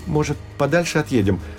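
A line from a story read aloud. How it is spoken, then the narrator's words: Timid suggestion. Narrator (Russian): робко предложил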